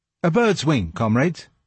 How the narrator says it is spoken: said

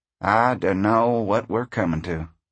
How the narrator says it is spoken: he said softly

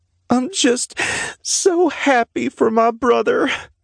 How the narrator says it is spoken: she said through her sobs

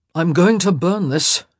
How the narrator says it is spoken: he grunted

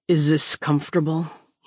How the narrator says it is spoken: he mumbles

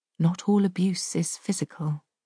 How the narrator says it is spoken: Carol says quietly

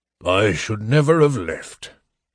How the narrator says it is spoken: Flint grumbled

